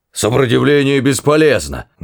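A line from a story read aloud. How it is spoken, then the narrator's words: Barked shout. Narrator (Russian): гаркнул охранник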